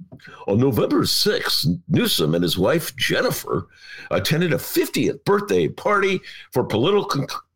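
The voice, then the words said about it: Announcer-style radio voice. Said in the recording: “read it in my radio voice”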